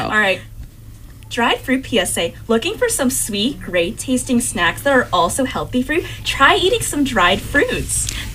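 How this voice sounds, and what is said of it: Bright customer service voice. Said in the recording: “Use your customer service voice.”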